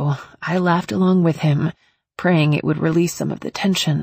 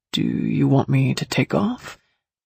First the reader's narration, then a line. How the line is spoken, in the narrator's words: He asked, his tone hesitant